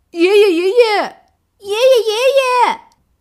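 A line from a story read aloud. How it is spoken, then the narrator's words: Repeated calling. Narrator (Chinese): 七只葫芦继续叫着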